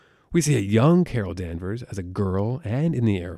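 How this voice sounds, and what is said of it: Usual voice. Nothing is said of it.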